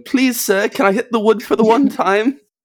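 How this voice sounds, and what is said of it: British Victorian street urchin voice. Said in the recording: “like a little British. ... talking like a little Victorian street urchin.”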